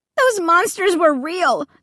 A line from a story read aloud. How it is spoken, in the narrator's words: I exclaimed with a shudder